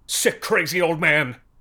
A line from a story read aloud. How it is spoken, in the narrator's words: somebody shrieked over the speakers